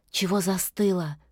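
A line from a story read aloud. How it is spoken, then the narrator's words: Whisper. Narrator (Russian): шепнула она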